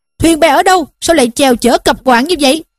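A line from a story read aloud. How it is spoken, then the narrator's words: Shout. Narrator (Vietnamese): Bọn lái đò bèn quát lên rằng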